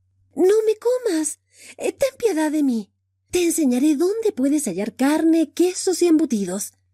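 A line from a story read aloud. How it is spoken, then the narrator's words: Squealing little mouse. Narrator (Spanish): chilló el ratoncito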